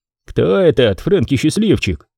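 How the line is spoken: Grumbling. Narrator (Russian): проворчал Пэна

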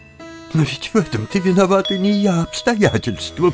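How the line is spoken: Sobbing. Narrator (Russian): всхлипнула фрау Талер

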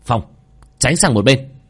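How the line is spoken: Shout from behind. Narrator (Vietnamese): đằng sau lại có tiếng quát

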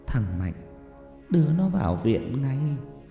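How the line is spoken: Trembling. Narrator (Vietnamese): Bà Bích Thủy run rẩy

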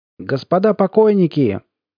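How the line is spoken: Loud and cheerful. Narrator (Russian): громко и весело сказал полковник

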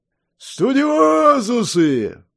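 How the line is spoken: Loud bellow. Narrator (Russian): Взревела луженая глотка

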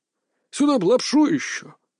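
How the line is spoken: Wistful old man's sigh. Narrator (Russian): как-то тоскливо вздохнул дед

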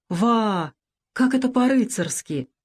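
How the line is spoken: Exclaiming. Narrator (Russian): воскликнул Бакрадзе

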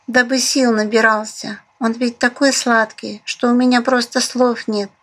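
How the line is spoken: Sighing. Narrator (Russian): вздохнула Даша

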